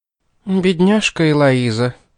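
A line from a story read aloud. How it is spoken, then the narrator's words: Sighing. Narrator (Russian): вздохнула миссис Денбай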